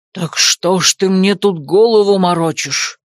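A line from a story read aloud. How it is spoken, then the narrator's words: Hiss. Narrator (Russian): прошипел Фаэс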